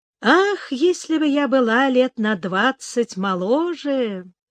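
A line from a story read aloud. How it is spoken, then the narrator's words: Wistful. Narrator (Russian): Лора задумчиво произнесла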